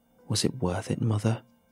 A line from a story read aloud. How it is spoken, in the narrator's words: I whispered to her